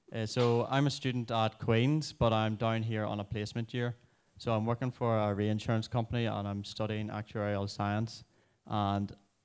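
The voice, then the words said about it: Northern Irish accent. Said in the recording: “you might be able to tell from the accent that I'm from a place that I like to call the Promised Land of Northern Ireland, specifically Armagh City”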